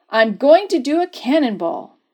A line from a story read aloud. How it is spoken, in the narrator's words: he announced loudly